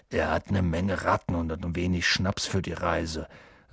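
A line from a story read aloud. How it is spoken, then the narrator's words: Dull, muffled voice. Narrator (German): sagte er mit dumpfer Stimme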